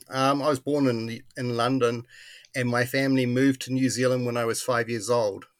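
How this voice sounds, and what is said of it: Slightly British accent. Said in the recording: “New Zealanders will tell me to this day, 50 years later that I still have a slightly British accent”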